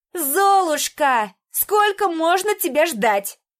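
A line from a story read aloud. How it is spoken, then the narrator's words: Indignant distant shout. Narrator (Russian): возмущенно прокричала из своей комнаты Анька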